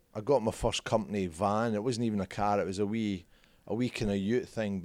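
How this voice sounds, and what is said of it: Scottish accent. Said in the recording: “How do you keep your accent for so long?”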